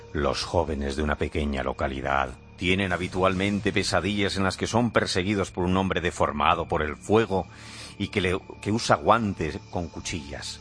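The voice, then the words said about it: Spooky, scary storytelling voice. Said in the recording (Spanish): “Voy a poner voz de miedo.”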